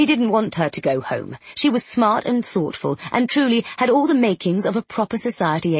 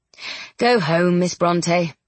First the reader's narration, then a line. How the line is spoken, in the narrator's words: she snorted